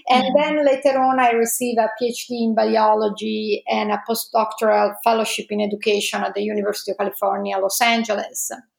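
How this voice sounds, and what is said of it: Italian accent. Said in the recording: “As you can probably guess from my accent, I'm Italian.”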